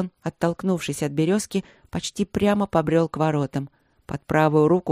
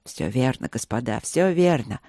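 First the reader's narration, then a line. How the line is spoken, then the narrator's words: Muttered. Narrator (Russian): пробормотал Люк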